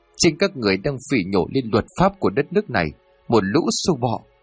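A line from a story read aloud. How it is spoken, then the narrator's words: Woman shouting loudly. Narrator (Vietnamese): Bà Miriam đứng bật dậy rồi hét lớn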